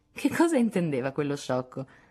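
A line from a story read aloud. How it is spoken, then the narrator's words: Laughing, feigned indifference. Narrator (Italian): rise fingendo indifferenza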